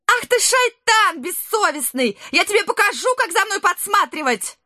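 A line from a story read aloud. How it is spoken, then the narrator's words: Loud shrieking. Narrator (Russian): Столь же громко вопила дочь султана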